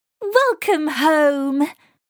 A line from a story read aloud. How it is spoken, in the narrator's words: cried